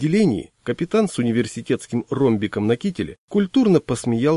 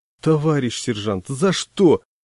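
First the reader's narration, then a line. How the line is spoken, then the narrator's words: Desperate plea, choked by wind. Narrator (Russian): успел взмолиться я и захлебнулся ветром, ударившим навстречу мотоциклу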